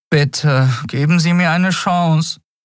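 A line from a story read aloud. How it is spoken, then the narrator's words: Boy pleading. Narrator (German): flehte der Junge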